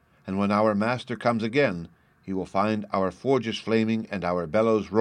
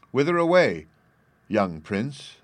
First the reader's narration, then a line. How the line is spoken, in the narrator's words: merrily asked